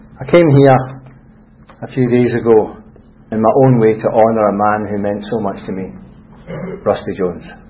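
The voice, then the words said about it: Scottish accent. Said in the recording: “This is a Scottish accent”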